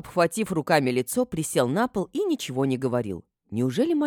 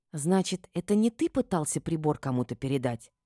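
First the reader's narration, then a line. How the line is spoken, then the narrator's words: Whispered clarifying question. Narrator (Russian): уточнила я шепотом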